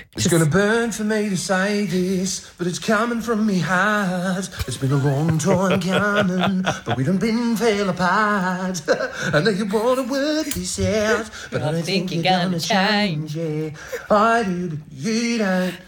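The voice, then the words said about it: R&B singing in Australian accent. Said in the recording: “singing R&B in an Australian accent just sounds yuck”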